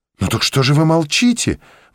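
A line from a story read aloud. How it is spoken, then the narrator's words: Joyful exclamation. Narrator (Russian): воскликнула, не в силах скрыть радости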